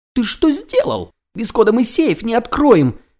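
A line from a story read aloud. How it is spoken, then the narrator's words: Furious squeal. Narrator (Russian): разъяренно взвизгнул тощий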